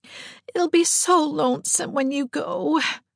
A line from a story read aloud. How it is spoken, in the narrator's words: moaned Diana for the 100th time